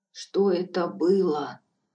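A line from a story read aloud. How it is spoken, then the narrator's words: Hoarse question. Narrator (Russian): спросила я охрипшим голосом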